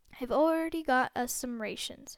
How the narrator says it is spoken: said Uncle Vernon

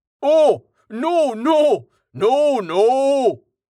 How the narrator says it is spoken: the human roared

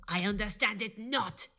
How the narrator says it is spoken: he growled

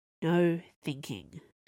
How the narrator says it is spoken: muttered

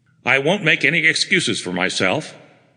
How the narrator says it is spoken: Asa Gregg said harshly

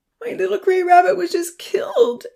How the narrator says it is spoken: Amy wailed

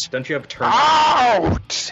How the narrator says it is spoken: He screams at you

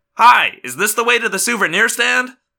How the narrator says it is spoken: I said cheerfully

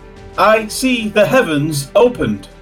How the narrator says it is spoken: he then called out

